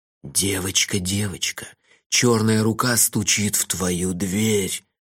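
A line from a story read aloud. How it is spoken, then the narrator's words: Ominous whisper. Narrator (Russian): зловеще прошептал я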